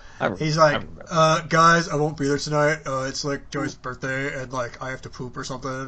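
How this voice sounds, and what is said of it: Imitates another person's voice. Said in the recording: “That's my ... impression. It's pretty good. ... That was pretty good.”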